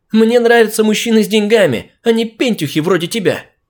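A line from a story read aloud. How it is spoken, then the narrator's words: Shout. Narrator (Russian): крикнула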